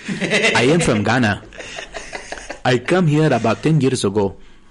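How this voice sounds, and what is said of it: Put-on African English accent. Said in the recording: “The African English accent, you talk like this.”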